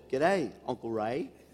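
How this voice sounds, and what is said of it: Put-on Australian accent. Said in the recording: “she does it ... I love the Australian accent.”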